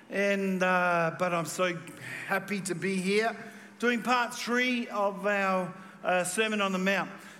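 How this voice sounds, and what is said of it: Slightly croaky voice. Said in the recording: “My voice is a little bit croaky”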